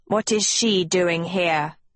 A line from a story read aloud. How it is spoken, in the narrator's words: Vex spat